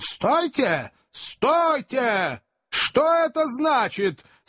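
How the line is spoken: Shout. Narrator (Russian): наконец, крикнул

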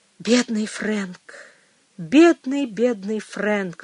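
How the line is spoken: Sighing. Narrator (Russian): вздохнула она

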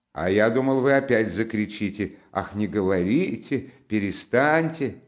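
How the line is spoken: Strained laughter. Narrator (Russian): засмеялся Раскольников, но как-то с натугой

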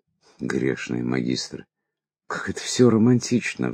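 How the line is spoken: Sigh. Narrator (Russian): вздохнул я

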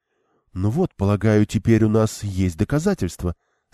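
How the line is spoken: Surprisingly calm. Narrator (Russian): сказала Элейн на удивление спокойно

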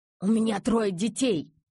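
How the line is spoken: Hoarse wheeze. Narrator (Russian): захрипел таксист

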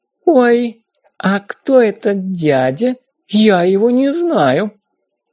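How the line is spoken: Doll-like voice. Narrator (Russian): кукольным голосом спросила

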